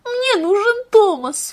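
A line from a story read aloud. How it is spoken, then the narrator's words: Sobbing bitterly. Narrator (Russian): всхлипывала она горько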